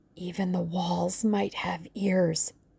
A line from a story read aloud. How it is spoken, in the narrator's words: whispered the other